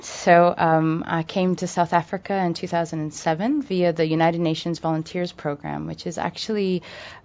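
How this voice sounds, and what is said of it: American accent. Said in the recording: “I have an American accent.”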